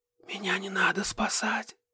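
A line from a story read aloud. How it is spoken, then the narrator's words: Whisper. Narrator (Russian): прошептала Ирен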